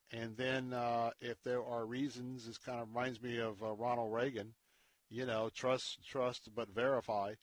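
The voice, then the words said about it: Hoarse, strained voice. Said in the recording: “as I'm losing my voice”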